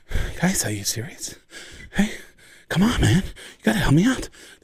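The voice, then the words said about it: Out-of-breath Mark Wahlberg impression. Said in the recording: “out of breath Mark Wahlberg”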